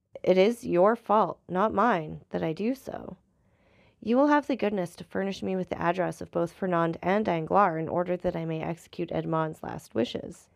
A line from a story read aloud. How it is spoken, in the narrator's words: answered the abbé calmly